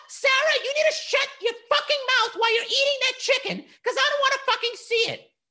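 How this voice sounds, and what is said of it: Yelling in an argumentative character voice. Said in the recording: “Why are you yelling at me?”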